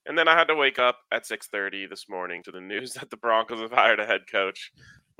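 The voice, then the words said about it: Tired, worn-out voice. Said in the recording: “if you can't just hear it in my voice ... I'm fighting through the day.”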